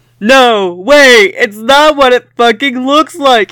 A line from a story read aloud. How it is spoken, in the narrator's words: he shouted